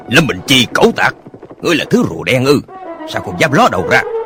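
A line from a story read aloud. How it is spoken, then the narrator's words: Shouting. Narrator (Vietnamese): Một tên quát lên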